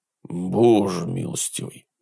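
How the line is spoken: Shocked mutter. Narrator (Russian): пробормотал он, увидев Грея

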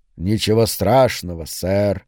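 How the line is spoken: Purring. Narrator (Russian): промурлыкал

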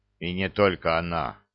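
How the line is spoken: Grumbling. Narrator (Russian): проворчал разведчик

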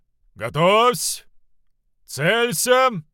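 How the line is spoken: Deep bass command. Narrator (Russian): пробасил ключевой Шинрейс

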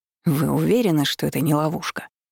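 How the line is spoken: Displeased, left-out declaration. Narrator (Russian): Недовольным голосом заявил Винс, которого снова никуда не брали

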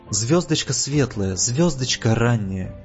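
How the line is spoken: Whispered. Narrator (Russian): зашептал

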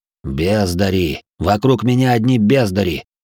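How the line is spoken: Sharp command. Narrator (Russian): Резко приказал мне

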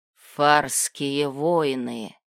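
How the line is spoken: Forest creature hissing through teeth. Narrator (Russian): процедил сквозь зубы лесовур

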